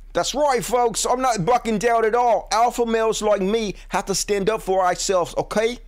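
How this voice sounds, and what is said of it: Put-on Australian accent. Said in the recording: “this is my Australian accent, and it's a dead ringer ... Aussie”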